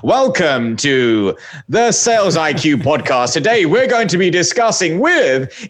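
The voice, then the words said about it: Stiff formal presenter voice. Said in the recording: “It's like the presenter voice. It doesn't connect with people.”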